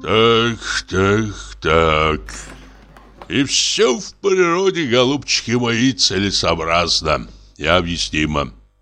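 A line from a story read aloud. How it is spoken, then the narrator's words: Sighing. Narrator (Russian): вздохнул Самойленко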